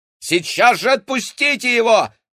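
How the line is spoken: Shouted. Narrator (Russian): крикнул Максим

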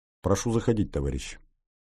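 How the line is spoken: Quiet. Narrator (Russian): негромко произнес

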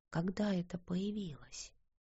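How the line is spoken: Whisper. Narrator (Russian): прошептала она

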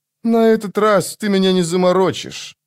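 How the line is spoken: Grumbling. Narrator (Russian): проворчал Мурильо

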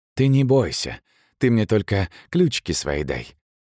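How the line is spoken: Quiet whisper. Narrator (Russian): тихо шептал Сашка

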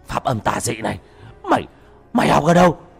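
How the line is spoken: Frightened cry. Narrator (Vietnamese): Nó hoảng sợ kêu lên

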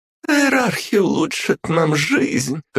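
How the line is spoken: Laughing mermaid. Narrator (Russian): хохотнула русалка

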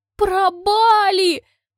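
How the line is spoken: Tragic exclamation. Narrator (Russian): восклицаю трагичным голосом

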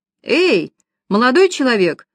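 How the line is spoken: Calling out after. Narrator (Russian): успела крикнуть она ему вслед

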